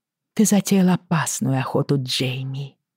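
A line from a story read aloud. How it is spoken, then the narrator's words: Soft. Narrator (Russian): мягко сказала я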